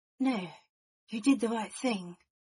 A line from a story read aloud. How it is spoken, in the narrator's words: Remus said softly